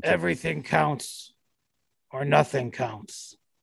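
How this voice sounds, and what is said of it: Imitates another person's voice. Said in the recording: “That's my Tibbs impression.”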